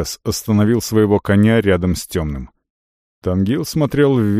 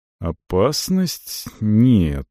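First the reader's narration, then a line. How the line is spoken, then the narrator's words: Slow, insinuating. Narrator (Russian): сказал он медленно, подразумевая что-то другое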